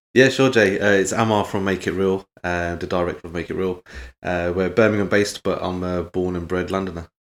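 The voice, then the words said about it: Posh London accent. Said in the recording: “I can tell by your accent ... His accent's way too posh”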